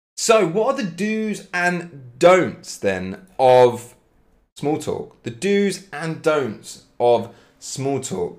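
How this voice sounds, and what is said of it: British English accent. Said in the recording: “I'm from England, from Cambridge, British accent, absolutely.”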